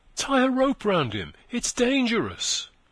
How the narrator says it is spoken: cried a soft and anxious voice somewhere above them

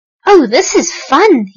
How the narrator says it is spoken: he cried

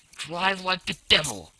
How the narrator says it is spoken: he shouted

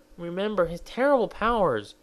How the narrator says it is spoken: he pleaded

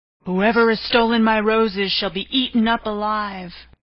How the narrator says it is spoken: a fierce lion and roared out

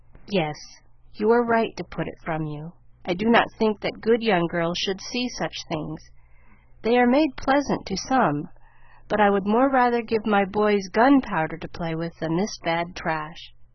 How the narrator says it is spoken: he was ready to say quite naturally but very gravely

